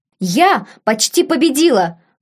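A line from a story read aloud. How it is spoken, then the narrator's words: Excited young woman exclaiming. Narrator (Russian): возбужденно воскликнула девушка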